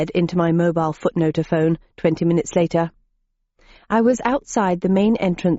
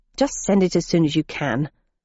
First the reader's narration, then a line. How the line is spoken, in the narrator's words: I added crossly